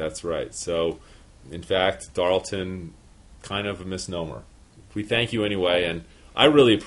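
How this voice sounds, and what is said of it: Usual voice. Nothing is said of it.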